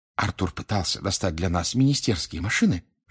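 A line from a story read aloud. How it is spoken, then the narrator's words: Whisper. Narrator (Russian): шепнула она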